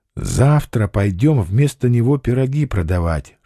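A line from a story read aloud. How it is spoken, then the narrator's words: Whisper. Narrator (Russian): шепнул Алексашка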